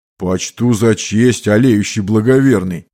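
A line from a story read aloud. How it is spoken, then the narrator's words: Booming drone. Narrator (Russian): прогудел оруженосец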